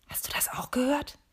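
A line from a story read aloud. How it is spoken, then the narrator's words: Whispering. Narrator (German): wispert sie Matthias zu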